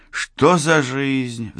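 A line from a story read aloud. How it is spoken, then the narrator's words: Sighing. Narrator (Russian): вздохнул Саенко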